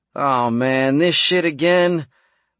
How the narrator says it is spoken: McAllister groaned

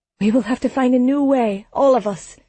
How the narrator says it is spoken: Sigir pleaded

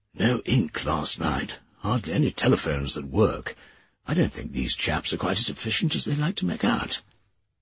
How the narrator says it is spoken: Dunglass whispered

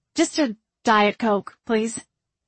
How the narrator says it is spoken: Margot said

